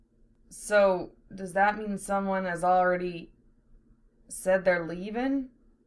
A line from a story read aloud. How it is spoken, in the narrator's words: Val said in a strangled voice